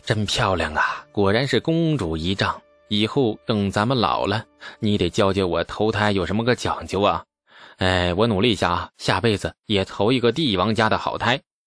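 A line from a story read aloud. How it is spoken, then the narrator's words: Grinning, clicking tongue admiringly. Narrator (Chinese): 李素咧嘴一笑，嘴里啧啧有声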